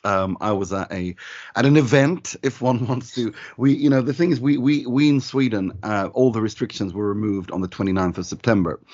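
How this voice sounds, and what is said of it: Hoarse voice. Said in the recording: “that is the reason for my hoarseness, my voice being a bit hoarse.”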